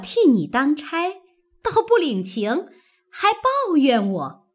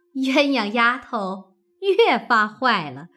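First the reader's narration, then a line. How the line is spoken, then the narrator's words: Laughing. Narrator (Chinese): 凤姐笑道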